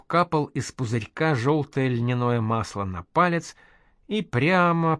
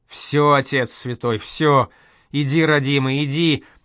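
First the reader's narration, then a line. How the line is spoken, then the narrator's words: Near-full-voice shout. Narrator (Russian): чуть не в голос закричал Проня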